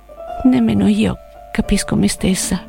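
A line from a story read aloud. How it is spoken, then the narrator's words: Low voice. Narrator (Italian): Selvaggia disse a voce bassa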